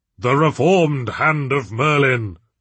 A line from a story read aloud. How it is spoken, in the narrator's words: boomed Roger